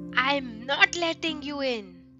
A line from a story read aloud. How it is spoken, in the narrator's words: yelled Ganesh bravely